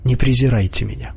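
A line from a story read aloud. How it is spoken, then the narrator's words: Lowered, quiet voice. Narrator (Russian): понизив голос, тихо добавила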